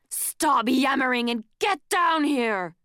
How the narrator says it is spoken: Kestrel roared

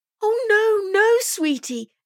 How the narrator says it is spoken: Emily exclaimed

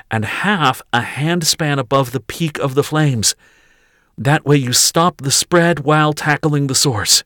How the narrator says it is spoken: she gasped

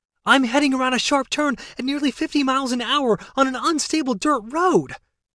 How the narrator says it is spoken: she yelled

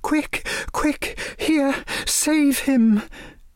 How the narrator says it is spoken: saying in a breathless voice

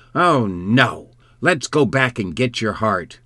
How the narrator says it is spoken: The shark exclaimed

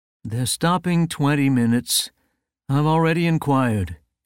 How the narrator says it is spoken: said in a bored tone

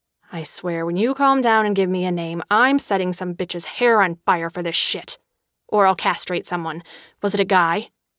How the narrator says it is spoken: while muttering

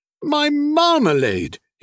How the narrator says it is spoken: exclaimed thankfully

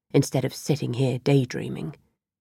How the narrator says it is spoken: murmured

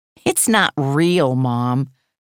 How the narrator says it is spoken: Gage laughed

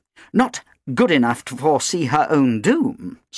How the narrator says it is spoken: snapped Helena

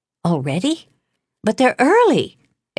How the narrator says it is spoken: exclaimed

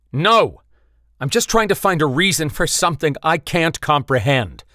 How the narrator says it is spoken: Bite Seal shouted

